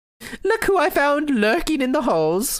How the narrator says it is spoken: Miss Callis laughed loudly

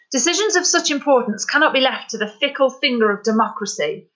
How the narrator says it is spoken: he snapped

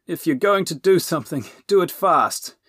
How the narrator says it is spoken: gasped Robin, as his and Dipple's weight listed dangerously in a downstairs direction

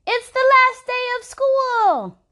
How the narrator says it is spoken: Rainy shouted to the sky

